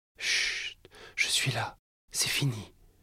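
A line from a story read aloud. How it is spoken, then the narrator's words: Soft murmur. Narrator (French): murmura-t-elle, sa voix douce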